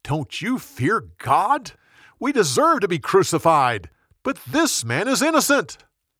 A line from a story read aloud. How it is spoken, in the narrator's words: The other criminal yelled back